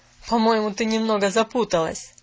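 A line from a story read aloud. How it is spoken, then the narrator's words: Spoken through laughter. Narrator (Russian): проговорил сквозь смех мистер Пендлтон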